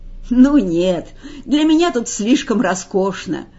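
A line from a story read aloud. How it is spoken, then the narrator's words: Laughing. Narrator (Russian): засмеялся Эдвард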